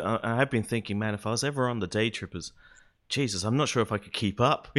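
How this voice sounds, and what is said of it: Australian accent. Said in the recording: “I'm probably the one to you with the weird accent because I'm in Australia”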